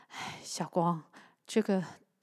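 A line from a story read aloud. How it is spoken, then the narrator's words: Sighing. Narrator (Chinese): 他叹了口气说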